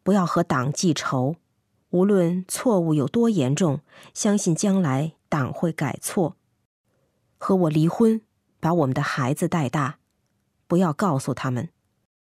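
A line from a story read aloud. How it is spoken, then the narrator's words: Soft, gentle. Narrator (Chinese): 轻声对母亲说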